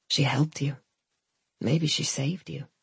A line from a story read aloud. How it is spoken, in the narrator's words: said my mother quietly